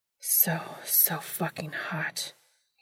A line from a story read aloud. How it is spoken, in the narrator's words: he breathed